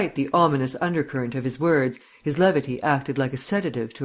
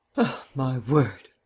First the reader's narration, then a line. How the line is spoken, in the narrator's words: sighed Vance